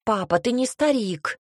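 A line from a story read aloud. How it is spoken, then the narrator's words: Exclaimed. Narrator (Russian): воскликнула Альба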